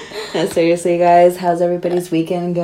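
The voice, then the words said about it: Unusually deep voice. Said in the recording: “My voice is so deep from the tannins and the Cabernet Sauvignon ... I feel like Cabernet makes my voice a little bit deeper”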